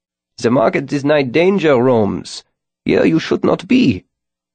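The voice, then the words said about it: Low-pitched Germanic accent. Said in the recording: “He greeted me in a Germanic accent ... The cob's voice was pitched low, even for someone as tiny as he.”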